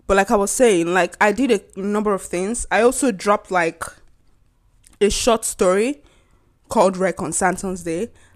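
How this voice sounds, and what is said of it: Congested voice with a cold. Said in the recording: “I have a cold ... I'm sorry for the cough”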